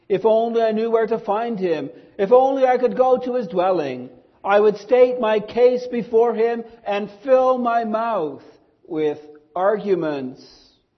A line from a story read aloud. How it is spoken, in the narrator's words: Job cried out in chapter 23, saying